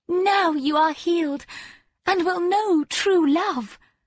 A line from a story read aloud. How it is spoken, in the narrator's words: cried the maiden